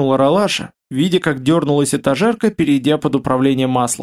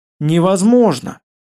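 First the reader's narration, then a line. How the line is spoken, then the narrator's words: Sighing ship intelligence. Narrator (Russian): вздохнул в ответ интеллект корабля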